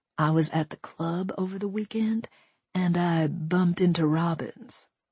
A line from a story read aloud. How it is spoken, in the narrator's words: he said in a conspiratorial tone